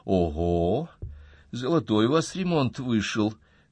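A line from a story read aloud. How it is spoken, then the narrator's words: Woman snorting. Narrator (Russian): фыркнула супруга Антона Андреевич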